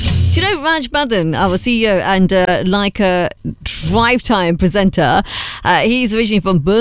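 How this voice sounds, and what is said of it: Usual voice. Nothing is said of it.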